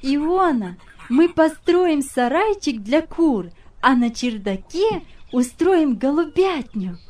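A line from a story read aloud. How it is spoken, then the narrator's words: Cheerful girl. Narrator (Russian): сказала девочка, весело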